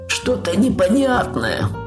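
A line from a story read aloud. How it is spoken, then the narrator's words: Groaning. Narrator (Russian): Простонал Этил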